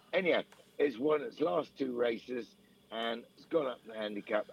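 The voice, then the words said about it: Hoarse, fading voice. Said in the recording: “I'm losing my voice a bit again. Can't get out of this sort of fluey thing.”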